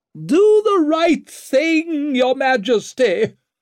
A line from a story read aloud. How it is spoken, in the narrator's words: Lady Wetterlant shrieked after him, her voice so sharp